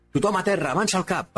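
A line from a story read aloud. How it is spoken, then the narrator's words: Commanding shout. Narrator (Catalan): va cridar el líder de l'equip del salt, recuperant finalment la iniciativa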